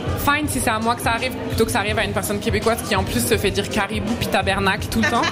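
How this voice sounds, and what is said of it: French accent from France. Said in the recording (French): “j'ai vraiment un accent français de chez français”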